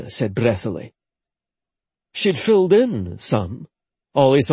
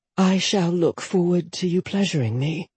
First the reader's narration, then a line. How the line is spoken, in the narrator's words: she breathed